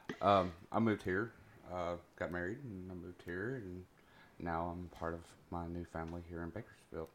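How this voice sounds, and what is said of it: Tennessee accent. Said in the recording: “I came from Tennessee. ... Tennessee. Can you hear that hot accent?”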